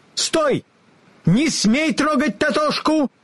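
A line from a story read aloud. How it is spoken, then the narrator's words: Angry shout. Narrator (Russian): гневно закричала она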